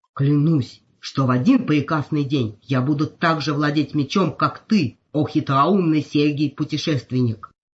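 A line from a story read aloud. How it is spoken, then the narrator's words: Breathless, solemn, shaken vow. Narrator (Russian): Едва отдышавшись, торжественно пообещал сам себе потрясенный огранщик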